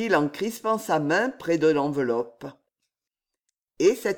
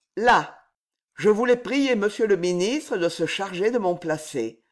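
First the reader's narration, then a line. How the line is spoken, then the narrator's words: Cold. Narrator (French): ajouta-t-il froidement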